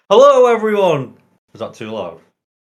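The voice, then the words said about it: Loud shouted greeting. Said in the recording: “That was too much... I've got a whisper or a shout.”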